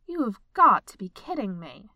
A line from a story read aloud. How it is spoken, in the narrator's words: she said sternly to the pile